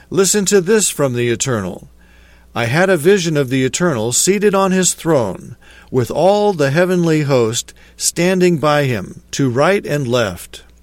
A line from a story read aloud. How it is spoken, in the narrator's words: cried Micaiah